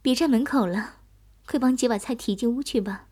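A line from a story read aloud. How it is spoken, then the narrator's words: Light laughing. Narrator (Chinese): 珊姐 笑道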